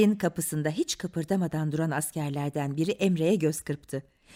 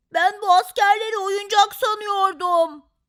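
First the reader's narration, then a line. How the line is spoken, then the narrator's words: Shouted. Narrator (Turkish): diye bağırdı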